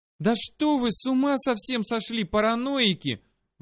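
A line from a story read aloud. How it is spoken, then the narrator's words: Sudden shout from behind. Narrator (Russian): вдруг закричала сзади Дрика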